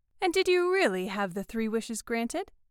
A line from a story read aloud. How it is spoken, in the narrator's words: asked Mrs